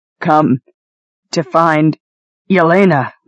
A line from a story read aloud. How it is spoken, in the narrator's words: Leaf said between gasps